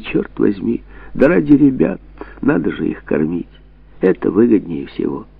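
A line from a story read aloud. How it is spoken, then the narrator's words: Resigned sigh. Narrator (Russian): он отвечал, вздохнув с покорностью судьбе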